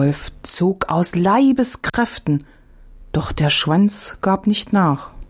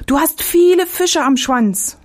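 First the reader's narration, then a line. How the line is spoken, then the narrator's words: Calling out. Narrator (German): rief der Fuchs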